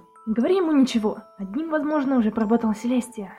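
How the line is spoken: Whisper through teeth. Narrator (Russian): сквозь зубы прошептала Рейнбоу

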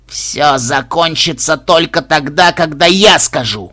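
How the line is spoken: Growled. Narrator (Russian): зарычал синтет

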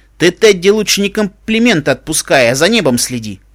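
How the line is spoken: Snapping retort. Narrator (Russian): огрызнулся Дарт

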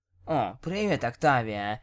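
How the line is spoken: Indistinct mumble. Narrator (Russian): невнятно пробормотала она

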